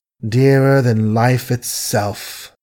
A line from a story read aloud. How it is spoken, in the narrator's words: Billy assented wearily